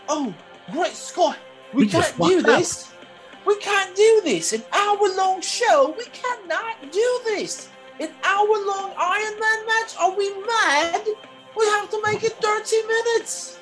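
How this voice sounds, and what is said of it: Put-on comedic British accent. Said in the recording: “That was like a Jerry Seinfeld British accent mixed into one.”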